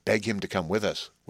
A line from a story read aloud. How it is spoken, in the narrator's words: whispered the hermit